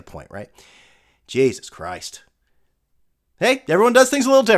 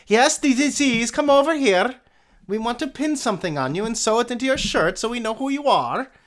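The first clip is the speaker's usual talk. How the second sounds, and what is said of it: Bad put-on German accent. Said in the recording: “Terrible German accent”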